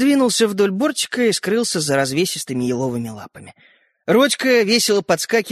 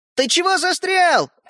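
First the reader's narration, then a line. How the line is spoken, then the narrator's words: Shout. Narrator (Russian): крикнул Родька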